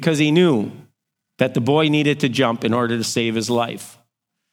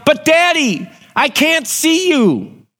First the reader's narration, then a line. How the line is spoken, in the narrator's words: the boy yelled